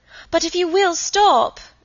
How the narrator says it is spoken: cried Margaret

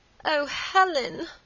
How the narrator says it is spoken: moaned Margaret

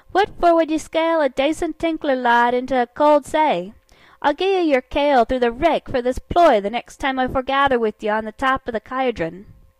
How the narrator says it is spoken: I cried

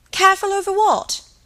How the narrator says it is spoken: cried Helen

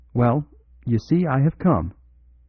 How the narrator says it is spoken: heard the new arrival say cheerfully

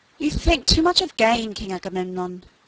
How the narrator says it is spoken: said Achilles

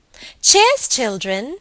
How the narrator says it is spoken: cried Helen

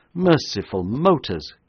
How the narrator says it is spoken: cried the horrified man

